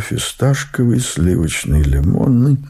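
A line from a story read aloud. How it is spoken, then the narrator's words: Mumbling. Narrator (Russian): по старой памяти я бормочу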